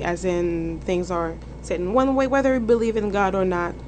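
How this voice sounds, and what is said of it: Haitian accent. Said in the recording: “as you can telling my accent. I'm not from around here. I'm actually from Haiti”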